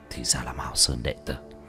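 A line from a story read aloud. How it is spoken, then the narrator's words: Muttered realization. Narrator (Vietnamese): Hắn lẩm bẩm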